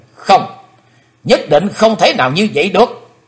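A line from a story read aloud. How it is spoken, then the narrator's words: Sudden shout. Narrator (Vietnamese): Chí Tôn bỗng thét lấy mình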